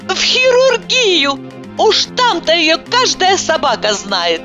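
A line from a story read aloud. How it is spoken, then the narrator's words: Joyful shout. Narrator (Russian): Я мгновенно вспомнила, что моя Иванова хирург, и радостно закричала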